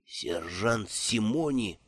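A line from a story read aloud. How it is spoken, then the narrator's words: Whisper. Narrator (Russian): прошептал он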